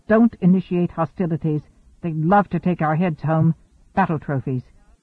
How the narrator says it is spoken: Hanno snapped

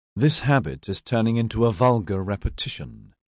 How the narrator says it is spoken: Ilanthe said, her voice silky with disdain

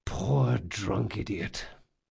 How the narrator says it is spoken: he sighed

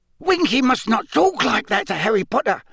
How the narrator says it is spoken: said Dobby angrily

